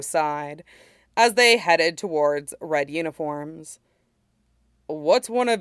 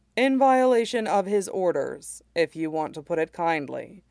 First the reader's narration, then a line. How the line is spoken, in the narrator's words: the Dai Li said dryly